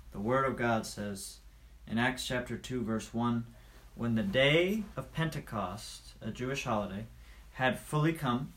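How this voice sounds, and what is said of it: American accent. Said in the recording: “I know I have an American accent. It sounds like I'm saying axe, like chop down a tree with an axe.”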